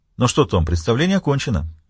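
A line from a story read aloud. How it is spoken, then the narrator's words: Plain. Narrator (Russian): сказал он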